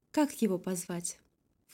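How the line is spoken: Ingratiating question. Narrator (Russian): Вкрадчиво спросила

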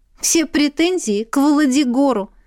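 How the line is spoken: Laughing reply. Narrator (Russian): рассмеявшись, ответствовала девушка

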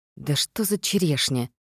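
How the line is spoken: Whispering to oneself. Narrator (Russian): прошептала я себе

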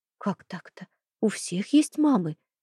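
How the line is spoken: Soft objection. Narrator (Russian): мягко возражаю

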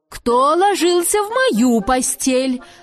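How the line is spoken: Subdued growl. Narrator (Russian): Зарычала Настасья Петровна, но не так громко

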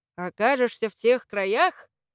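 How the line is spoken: Laughing loudly. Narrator (Russian): расхохотался русский

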